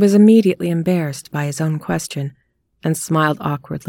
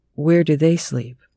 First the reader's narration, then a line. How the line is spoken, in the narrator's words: Christopher asked